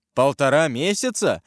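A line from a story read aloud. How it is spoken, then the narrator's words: Exclamation. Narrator (Russian): воскликнул Карл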